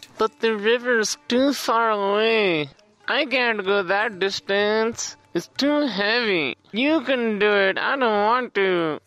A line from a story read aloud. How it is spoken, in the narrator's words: they whined